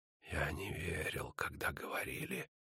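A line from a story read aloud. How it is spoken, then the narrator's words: Whisper. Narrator (Russian): шепнул он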